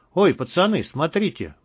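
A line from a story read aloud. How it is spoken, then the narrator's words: Sudden exclamation. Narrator (Russian): вдруг воскликнул Толик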